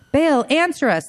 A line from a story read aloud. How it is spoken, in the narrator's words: they shouted